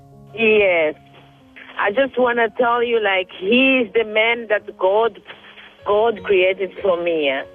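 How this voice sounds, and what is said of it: African-accented English. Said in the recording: “you don't have a French accent. You sound like you're from Africa. ... You sound like you're from Ghana or Liberia, Côte d'Ivoire. ... you have a beautiful accent.”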